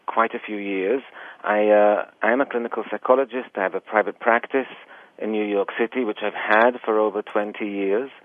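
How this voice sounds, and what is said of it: Slight English-Israeli accent. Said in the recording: “People usually detect I have a bit of an accent. I was born in England, but I was raised actually in Israel”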